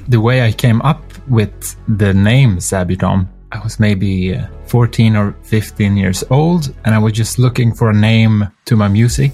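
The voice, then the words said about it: Swedish accent in English. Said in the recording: “that's just my Swedish accent”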